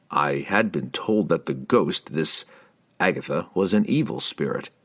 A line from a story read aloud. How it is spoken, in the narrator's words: Driz told them calmly